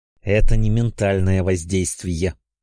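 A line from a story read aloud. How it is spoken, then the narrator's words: Hissed through teeth. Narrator (Russian): сквозь зубы прошипел Ясван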